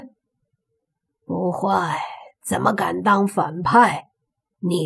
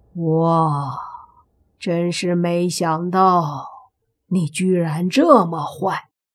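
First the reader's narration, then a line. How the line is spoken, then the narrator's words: Amazed exclamation. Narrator (Chinese): 妖道都不禁感叹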